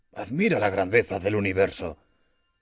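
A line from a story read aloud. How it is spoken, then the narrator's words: Exclaimed. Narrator (Spanish): exclamó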